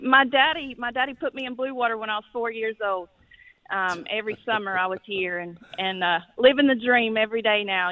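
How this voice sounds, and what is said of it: Slight Southern twang. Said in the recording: “Sounds like you had a little twang in your thang ... That's not a Keys accent”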